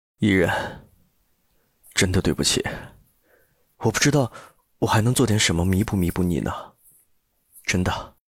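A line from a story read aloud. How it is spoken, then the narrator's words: Slightly hoarse woman. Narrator (Chinese): 她嗓音有些沙哑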